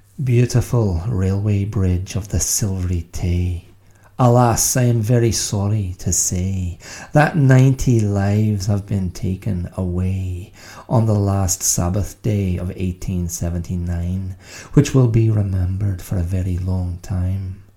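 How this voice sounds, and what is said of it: Attempted Scottish accent. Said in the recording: “dare I attempt a Scottish accent? ... I might not be able to sustain it.”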